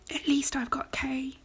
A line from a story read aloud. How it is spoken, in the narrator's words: he whispered miserably